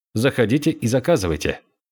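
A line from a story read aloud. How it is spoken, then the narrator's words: Cold. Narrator (Russian): сказал Буфан холодно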